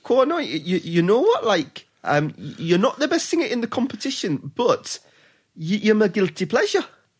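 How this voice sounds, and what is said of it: Geordie accent imitating a singer. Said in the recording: “not a million miles away from Geordie ... my Cheryl Cole impression. It's uncanny.”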